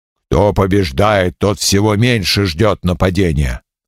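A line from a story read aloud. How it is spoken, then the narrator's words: Grumbling. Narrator (Russian): проворчал Скирвойло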